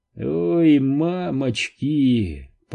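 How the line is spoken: Groan. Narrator (Russian): простонал Джеффри

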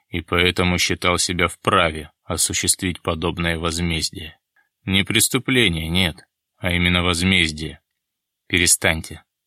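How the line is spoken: Stern interruption. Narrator (Russian): строго прервал его Дронго

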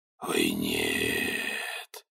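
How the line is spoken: Said in low voice. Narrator (Russian): вполголоса сказал

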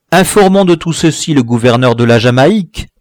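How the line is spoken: Plain. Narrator (French): dit un troisième

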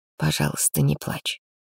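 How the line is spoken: Quiet anxious plea. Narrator (Russian): попросил он тихо и взволнованно

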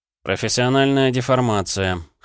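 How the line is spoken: Wry snort. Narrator (Russian): хмыкнул

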